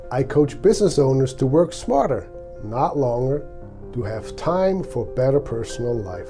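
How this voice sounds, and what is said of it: Swiss accent in English. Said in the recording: “my accent, I came from Switzerland more than 30 years ago”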